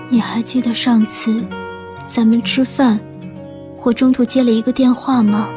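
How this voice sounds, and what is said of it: Low, almost depressed voice. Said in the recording (Chinese): “用一种几近抑郁的声音说话”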